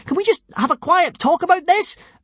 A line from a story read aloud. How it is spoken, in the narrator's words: Asked Hiccup breathlessly